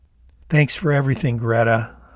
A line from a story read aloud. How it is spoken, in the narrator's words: I said